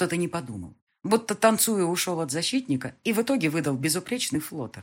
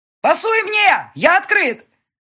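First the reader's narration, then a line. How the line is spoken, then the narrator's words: Shouting. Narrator (Russian): Леша закричал ему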